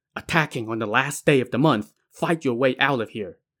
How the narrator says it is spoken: couldn't really explain things in detail, quickly whispered

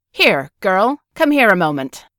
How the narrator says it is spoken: Assuming the attitude of the colonial Frenchman she seemed to be, she barked

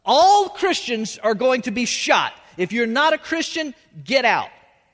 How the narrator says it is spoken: the leader of the soldiers yells out

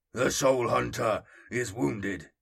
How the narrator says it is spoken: the Terminator asked, its voice a deep, rumbling growl

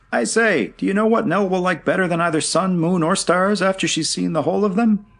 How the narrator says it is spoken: Jack shouting

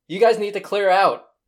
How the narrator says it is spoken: He yells

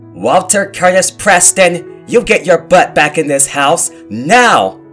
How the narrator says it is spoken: Ma was yelling

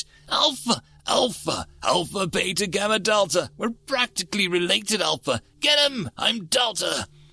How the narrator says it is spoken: said excitedly

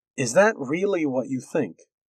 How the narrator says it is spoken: He asked calmly

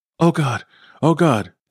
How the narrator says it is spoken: Danny panted

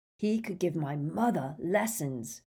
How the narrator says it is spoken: growled Ron

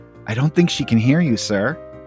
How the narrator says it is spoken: Marcy whispers to Peppermint Patty

